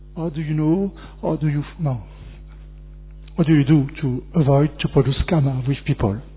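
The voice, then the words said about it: French accent. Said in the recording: “Your French accent”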